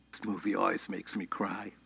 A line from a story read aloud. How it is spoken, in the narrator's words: leans forward and whispers into his ear